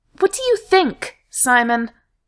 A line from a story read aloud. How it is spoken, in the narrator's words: he snapped